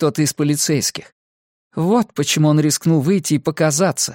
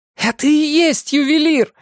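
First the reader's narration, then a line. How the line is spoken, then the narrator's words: Yelling. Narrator (Russian): заорала я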